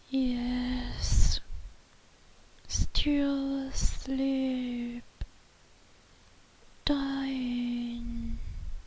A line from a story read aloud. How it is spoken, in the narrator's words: he said very faintly, almost inaudibly